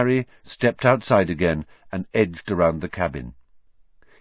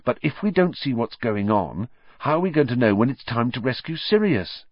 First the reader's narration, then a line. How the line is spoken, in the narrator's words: said Harry quickly